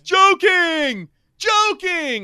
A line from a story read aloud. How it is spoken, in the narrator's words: he yells